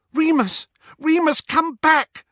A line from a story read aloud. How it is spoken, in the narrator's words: Hermione cried